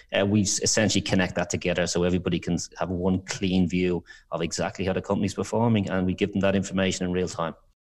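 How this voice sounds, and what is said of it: Irish accent. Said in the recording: “I thought you're from Texas, but I'm just guessing by your accent. You're not from Texas.”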